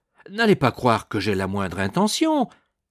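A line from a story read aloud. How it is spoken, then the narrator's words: Exclaimed. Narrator (French): s'écria Rodolphe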